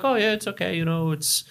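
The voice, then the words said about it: Weak put-on Swedish accent. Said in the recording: “I can't do a very good Swedish accent”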